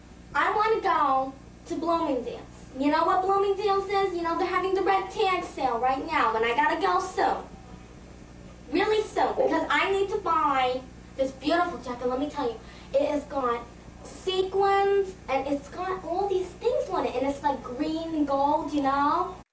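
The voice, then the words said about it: Put-on New York accent. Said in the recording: “This is you playing a New York accent.”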